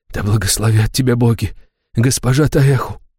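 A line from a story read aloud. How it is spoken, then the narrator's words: Whisper. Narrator (Russian): шептал он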